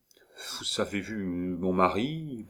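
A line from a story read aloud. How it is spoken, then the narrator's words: Astonished stammer. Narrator (French): balbutia, ébahie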